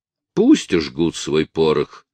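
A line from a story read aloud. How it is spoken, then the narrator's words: Calm. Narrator (Russian): спокойно сказал соколиный глаз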